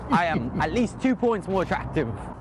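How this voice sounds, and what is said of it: Put-on British accent. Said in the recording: “British accent.”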